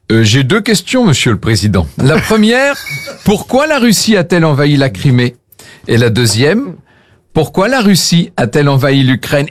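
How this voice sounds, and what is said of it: Put-on Russian accent. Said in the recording (French): “accent ... russe”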